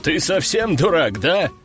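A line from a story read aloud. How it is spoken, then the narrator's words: Chuckling creature. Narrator (Russian): Хохотнул четырехрукий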